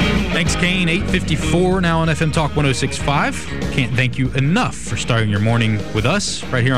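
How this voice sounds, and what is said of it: Usual voice. Nothing is said of it.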